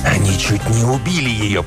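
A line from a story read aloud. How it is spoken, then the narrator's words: Giant's hoarse wheeze. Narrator (Russian): прохрипел гигант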